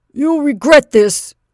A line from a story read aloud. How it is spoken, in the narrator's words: he shouted